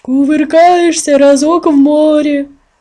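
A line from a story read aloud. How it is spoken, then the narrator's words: Exclaimed. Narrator (Russian): воскликнул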